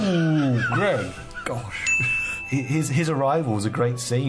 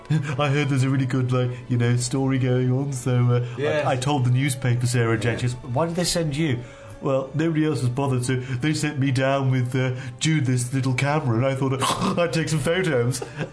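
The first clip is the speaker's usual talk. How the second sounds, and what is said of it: Good impression of a character. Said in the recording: “Bloody good impression.”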